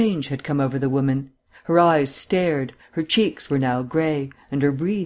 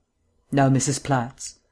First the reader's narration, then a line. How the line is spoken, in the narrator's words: demanded Vance sharply